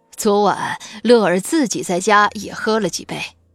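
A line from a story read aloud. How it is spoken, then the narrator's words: Smiling, cheerful. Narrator (Chinese): 孔学富笑吟吟地说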